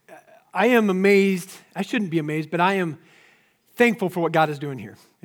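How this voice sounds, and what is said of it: Hoarse, strained voice. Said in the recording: “I've lost my voice from worship already”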